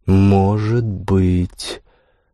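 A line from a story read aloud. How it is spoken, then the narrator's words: Drawling. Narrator (Russian): протянула Лара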